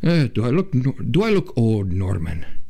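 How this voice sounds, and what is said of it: Put-on Irish or Scottish accent. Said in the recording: “She speaks with, I think, an Irish or Scottish accent.”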